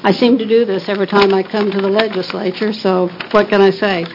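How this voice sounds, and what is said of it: Strained, unwell-sounding voice. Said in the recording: “I'm suffering from allergies today, so excuse my voice.”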